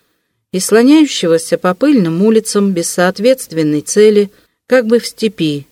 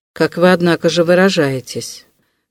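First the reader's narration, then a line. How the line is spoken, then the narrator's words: Grim, very serious. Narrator (Russian): как-то мрачно заметил Вельчининов, ставший вдруг опять ужасно серьезным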